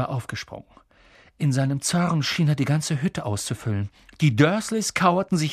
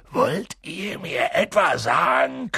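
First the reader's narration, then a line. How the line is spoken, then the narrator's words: Growling. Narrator (German): knurrte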